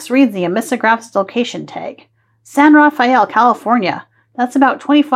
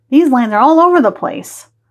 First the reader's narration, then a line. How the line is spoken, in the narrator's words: Ollie barks, sensing your excitement